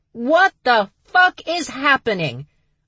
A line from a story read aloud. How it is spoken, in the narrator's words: A voice bellowed from the hallway